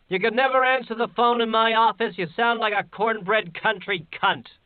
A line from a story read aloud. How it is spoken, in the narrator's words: Crandler yelled through the flowers